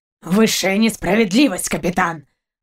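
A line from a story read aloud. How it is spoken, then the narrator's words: Dog's growl. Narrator (Russian): рыкнул пес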